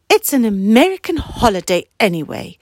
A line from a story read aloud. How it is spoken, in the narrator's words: said her mum crossly